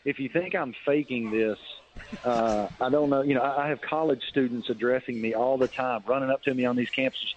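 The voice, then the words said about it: Southern American accent. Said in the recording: “a Southern accent ... I have to lose my accent”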